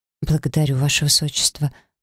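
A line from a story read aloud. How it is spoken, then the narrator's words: Mumble. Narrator (Russian): пробормотал я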